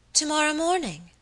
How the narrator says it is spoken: exclaimed my lady, looking up suddenly

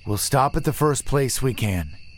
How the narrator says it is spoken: he sighed

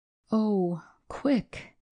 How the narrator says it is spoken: he cried

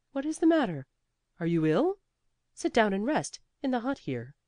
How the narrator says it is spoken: he was so startled by her looks that instead he stopped short and exclaimed

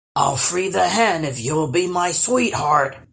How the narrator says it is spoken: he bellowed

